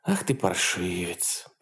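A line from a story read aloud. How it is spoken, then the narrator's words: Purring. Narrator (Russian): промурлыкала она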